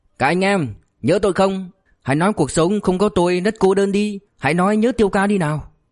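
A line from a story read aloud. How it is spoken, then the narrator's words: Joyful loud call from afar. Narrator (Vietnamese): Từ đất xa, Thủ Tiêu đã hớn hở nói lớn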